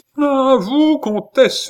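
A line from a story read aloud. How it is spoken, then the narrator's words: Exclaimed. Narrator (French): s'écria le maréchal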